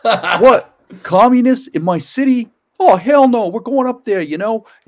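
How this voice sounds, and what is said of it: Exaggerated South Philly Italian mafia accent. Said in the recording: “the Italian accent goes from like zero to mafia in like 1 second”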